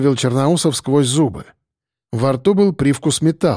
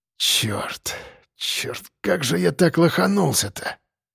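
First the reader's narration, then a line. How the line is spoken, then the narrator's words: Mutter. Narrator (Russian): пробормотал он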